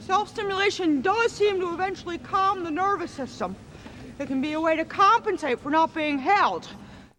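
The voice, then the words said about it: Claire Danes as Temple Grandin. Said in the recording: “Please put a clip of her doing Temple Grandin here.”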